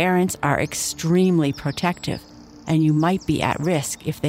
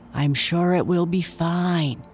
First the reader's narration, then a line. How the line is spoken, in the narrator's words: whispered Nia, but with a little bit of doubt